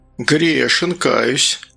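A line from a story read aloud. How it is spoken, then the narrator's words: Sigh. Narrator (Russian): Гастон вздохнул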